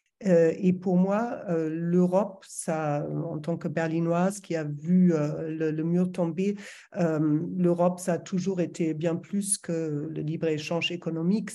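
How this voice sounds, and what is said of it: German accent speaking French. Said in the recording (French): “quel joli accent ... je suis allemande, je pense que ça s'entend toujours, ça va toujours s'entendre ... je viens de Berlin”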